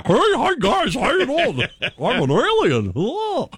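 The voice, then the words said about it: Corny alien character voice. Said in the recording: “In a corny voice.”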